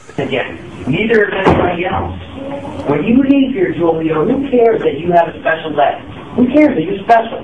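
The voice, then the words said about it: Philadelphia accent. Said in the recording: “I hear a Philly accent”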